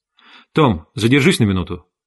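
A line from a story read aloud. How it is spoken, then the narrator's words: Curt, clipped. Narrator (Russian): отрывисто бросил Майкл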